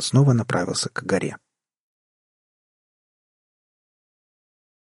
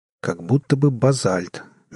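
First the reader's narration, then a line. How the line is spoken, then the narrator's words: Uncertain. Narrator (Russian): неуверенно произнес он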